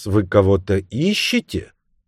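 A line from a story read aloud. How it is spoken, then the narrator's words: Slow, careful, foreign-sounding. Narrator (Russian): Женщина заговорила медленно, тщательно выговаривая слова, как иностранка, как будто она заучила их наизусть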